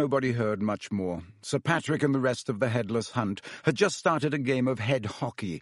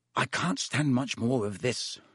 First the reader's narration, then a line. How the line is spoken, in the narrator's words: Ron muttered, his teeth chattering